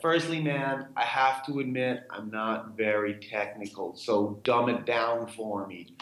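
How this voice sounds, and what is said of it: Poor American accent impression of Woody Harrelson. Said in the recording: “this is my poor American accent”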